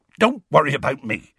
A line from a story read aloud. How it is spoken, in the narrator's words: he said hastily